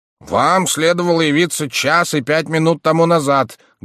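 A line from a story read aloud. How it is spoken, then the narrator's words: Loud repetition. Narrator (Russian): громко повторил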